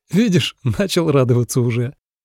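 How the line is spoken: Laughing speech. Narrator (Russian): Сказал сквозь смех

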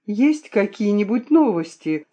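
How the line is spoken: Excited question. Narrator (Russian): спросила я взволнованно

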